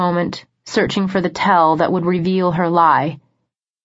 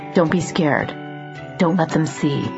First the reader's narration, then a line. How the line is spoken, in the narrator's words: Sam's voice whisper in my ear